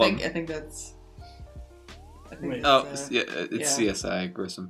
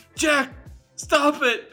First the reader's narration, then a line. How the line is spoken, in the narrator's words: Dave yelled